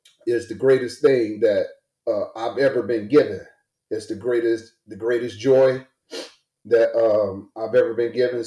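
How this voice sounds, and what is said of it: Emotional, choked-up voice. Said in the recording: “sorry, I'm getting emotional about it.”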